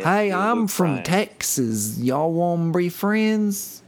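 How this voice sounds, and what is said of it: Exaggerated Texas twang. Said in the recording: “if you're over twanging it, you'll know? ... If you're over twanging it.”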